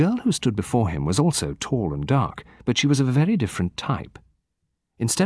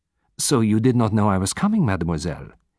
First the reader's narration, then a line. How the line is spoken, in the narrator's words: he said quickly